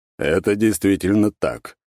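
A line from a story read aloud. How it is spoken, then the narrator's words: Calm. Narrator (Russian): спокойно подтвердил император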